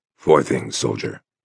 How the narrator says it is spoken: Blake said, his voice low

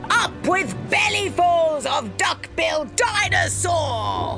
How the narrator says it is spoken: they shouted

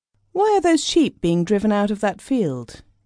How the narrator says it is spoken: he asked

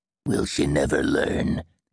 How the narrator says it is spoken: he asked gruffly

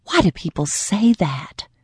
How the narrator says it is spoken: she muttered

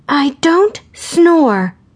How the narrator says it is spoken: Gracie screamed, taking the bait

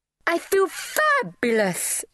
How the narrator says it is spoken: shrieked Pamela

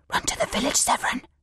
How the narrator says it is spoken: The older woman hissed

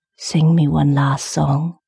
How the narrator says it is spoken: he whispered

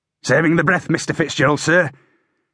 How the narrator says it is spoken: Aixwell snapped

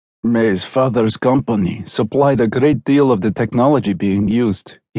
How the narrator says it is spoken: he murmured

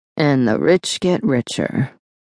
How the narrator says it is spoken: Reagan murmured

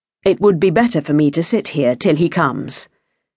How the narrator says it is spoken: said the young man in a casual tone

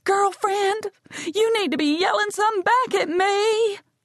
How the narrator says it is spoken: Tears rinse clean lines down Evie's face, and she screams

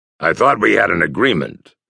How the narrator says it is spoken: said Sable harshly

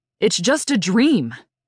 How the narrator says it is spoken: Roger shouted at her

